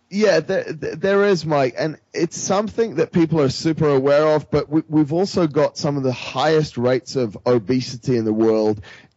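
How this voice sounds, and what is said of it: Not quite British accent. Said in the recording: “I'm British by birth ... my accent is not quite British still”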